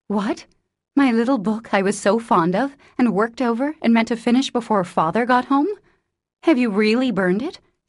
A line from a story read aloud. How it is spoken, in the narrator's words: said Jo, turning very pale